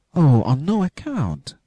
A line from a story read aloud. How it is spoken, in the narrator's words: cried little Hans